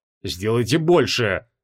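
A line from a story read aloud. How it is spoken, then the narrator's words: Through gritted teeth. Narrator (Russian): процедил Креол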